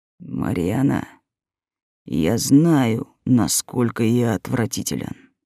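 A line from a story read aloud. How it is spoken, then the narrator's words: Quiet, very reluctant. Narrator (Russian): тихо и очень неохотно произнес Герман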